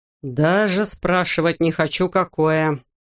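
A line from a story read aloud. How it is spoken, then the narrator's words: Groaning. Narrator (Russian): простонал директор космического центра Джонсона Кен Бланкеншип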